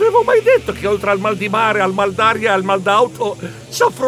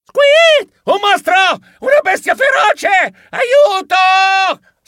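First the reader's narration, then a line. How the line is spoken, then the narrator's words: Shriek. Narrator (Italian): strillai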